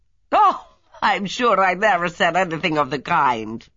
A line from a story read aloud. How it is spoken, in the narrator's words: Lola laughed